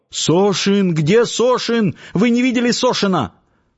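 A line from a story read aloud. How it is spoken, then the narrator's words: Panicked guard shouting. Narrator (Russian): бледный, с вытаращенными глазами охранник и закричал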